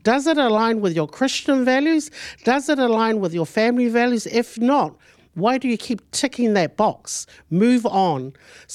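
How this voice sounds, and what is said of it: Raised, louder voice. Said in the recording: “Maybe that's why I'm raising my voice a bit”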